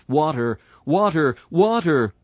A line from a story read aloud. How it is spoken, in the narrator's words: so the Christian cries out